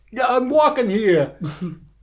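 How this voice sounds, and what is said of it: New Jersey accent. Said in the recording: “nothing funnier than a Jersey accent.”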